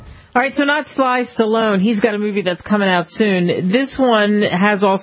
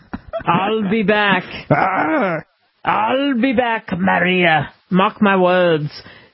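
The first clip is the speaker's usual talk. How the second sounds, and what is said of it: Arnold Schwarzenegger impression. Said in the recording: “Arnold Schwarzenegger ... How can you not recognize his accent? ... Can you imitate him?”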